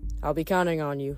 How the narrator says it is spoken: Nico said

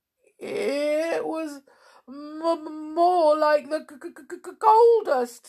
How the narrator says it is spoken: stuttered Mr

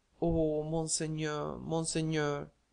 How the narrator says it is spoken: murmured Besmo

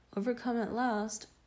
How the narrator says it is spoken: I called out aloud

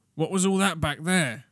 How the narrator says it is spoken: Wendy said loudly

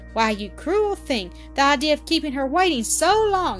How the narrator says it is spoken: exclaimed Blanche in simulated wrath

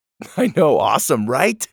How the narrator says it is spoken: Doug laughed

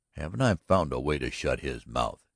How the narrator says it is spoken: He said sharply

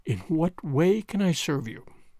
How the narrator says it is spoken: he said, whilst his voice shook almost as much as hers

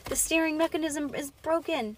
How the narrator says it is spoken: she yelled

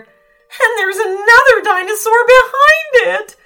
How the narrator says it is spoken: wailed the third mountaineer

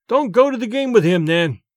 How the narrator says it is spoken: I pleaded

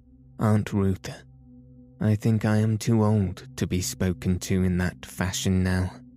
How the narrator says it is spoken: said coldly

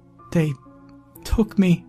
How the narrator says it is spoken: she said through heavy sobbing

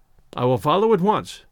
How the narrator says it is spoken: I said

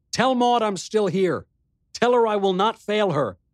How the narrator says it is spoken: On an impulse, I called out to him

